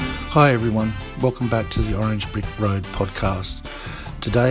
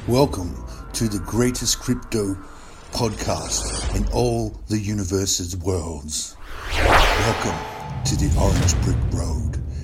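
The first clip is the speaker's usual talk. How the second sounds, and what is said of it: Put-on deep announcer voice. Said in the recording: “I'm using this deep voice.”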